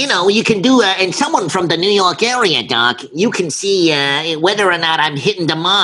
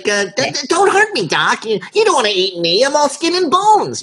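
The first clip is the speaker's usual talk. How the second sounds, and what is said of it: Nasally Brooklyn cartoon rabbit voice. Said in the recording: “you can do the nasally Brooklyn type accent”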